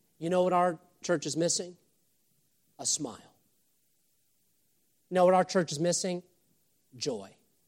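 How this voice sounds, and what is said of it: Screaming, yelling preacher. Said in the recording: “I'm screaming and I'm yelling. I'm going to lose my voice”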